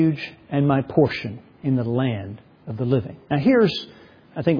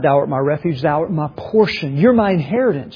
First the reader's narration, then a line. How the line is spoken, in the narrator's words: He cried